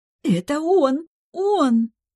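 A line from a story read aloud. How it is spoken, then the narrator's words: Joyful near-squeal. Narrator (Russian): Она готова была визжать от радости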